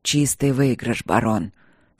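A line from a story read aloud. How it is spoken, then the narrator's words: Hoarse. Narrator (Russian): сказал Кембридж хрипло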